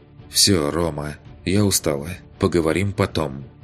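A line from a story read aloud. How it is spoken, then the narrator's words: Calm. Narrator (Russian): Уже спокойно закончила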